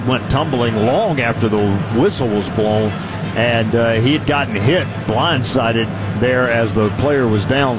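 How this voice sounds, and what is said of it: Southern American accent. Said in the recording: “my southern accent ... you'll never lose that”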